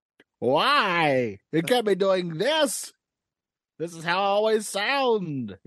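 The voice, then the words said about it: Hoarse cartoon villain character voice. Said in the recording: “My voice, I don't know why, is feeling a little hoarse itself. ... Skeletor.”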